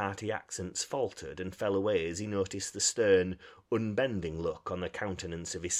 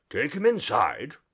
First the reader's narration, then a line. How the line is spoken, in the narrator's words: he said sternly